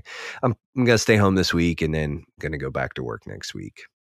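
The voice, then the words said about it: Gravelly, rough voice. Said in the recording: “sweet like gravelly radio voice”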